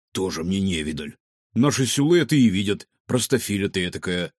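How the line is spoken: Grumble. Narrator (Russian): заворчал Варивода

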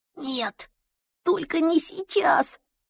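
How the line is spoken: Whisper. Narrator (Russian): прошептал я

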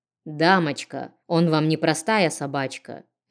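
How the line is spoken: Icy cold tone. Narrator (Russian): ледяным тоном сказал целитель

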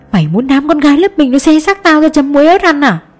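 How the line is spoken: Muffled hiss through teeth. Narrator (Vietnamese): Nhi bịt mồm lên lại, giọng rít qua kẽ răng

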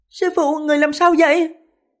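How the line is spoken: Panicked scream. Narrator (Vietnamese): Lục Tuyết Kỳ hoảng hồn thét lên

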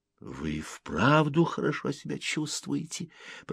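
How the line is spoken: Whisper. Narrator (Russian): прошептал Селло

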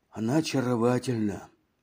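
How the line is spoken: Sighing, younger man. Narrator (Russian): вздохнул Жан Шабо, тот, что был помоложе

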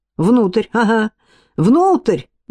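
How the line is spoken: Exclamation. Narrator (Russian): воскликнул Цветрез

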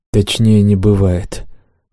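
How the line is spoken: Tired confirmation. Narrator (Russian): устало подтвердил я

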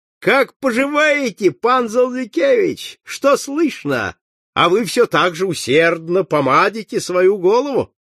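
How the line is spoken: Shout. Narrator (Russian): студент крикнул

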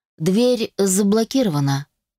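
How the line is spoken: Calm, matter-of-fact. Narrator (Russian): произнес он спокойно, словно сообщал прогноз погоды

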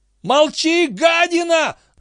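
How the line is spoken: Yell. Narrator (Russian): заорал Бозман

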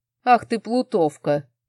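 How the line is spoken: Playful growl. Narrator (Russian): прорычал муж

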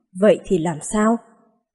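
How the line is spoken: Surprised. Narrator (Vietnamese): Phương Thốn kinh ngạc nói

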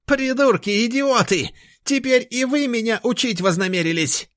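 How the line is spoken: Shrill shout. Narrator (Russian): Визгливо прокричал ректор

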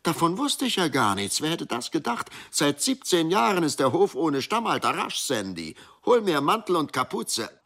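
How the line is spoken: Woman calling out. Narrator (German): rief Sandy Marchaks Frau

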